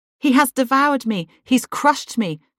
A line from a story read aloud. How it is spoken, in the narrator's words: Jerusalem cried of Nebuchadnezzar